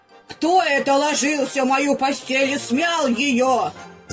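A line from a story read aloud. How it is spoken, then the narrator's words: Quiet growl. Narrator (Russian): зарычала Настасья Петровна не так громко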